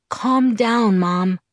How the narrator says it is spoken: I said in my most soothing voice

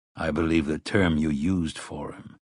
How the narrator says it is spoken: Roland said dryly

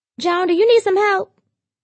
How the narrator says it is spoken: Darnetta yelled from the living room

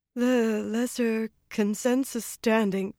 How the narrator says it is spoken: she announced in an unsteady voice

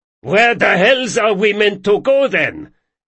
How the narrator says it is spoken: shouted a long-coated carriage hand

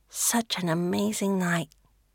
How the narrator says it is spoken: she murmurs

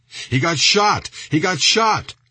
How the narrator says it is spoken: shouted the driver

